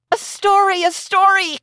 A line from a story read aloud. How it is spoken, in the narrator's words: cried the children